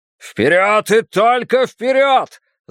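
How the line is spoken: Loud rallying shout. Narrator (Russian): закричал герцог

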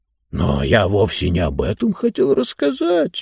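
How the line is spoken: Guilty mumble. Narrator (Russian): виноватым голосом пробормотал Мортур

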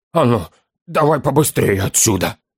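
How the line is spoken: Serious, through gritted teeth. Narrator (Russian): Сквозь зубы процедил сразу посерьезневший гном

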